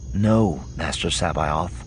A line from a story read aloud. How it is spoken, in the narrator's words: Skywalker said, his voice almost gentle